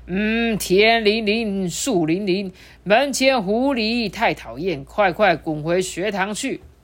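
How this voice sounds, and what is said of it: Deliberately lowered, deep voice. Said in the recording (Chinese): “故意压低他的声音说”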